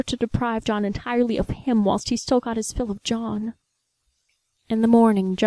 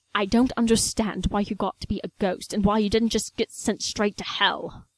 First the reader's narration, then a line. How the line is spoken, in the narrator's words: snarled